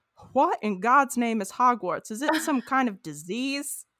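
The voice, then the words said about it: Put-on Louisiana accent. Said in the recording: “I gave him like a Louisiana accent.”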